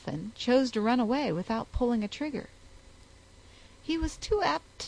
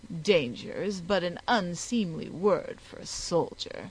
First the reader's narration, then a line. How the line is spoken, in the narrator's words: continued the British commander with a sneer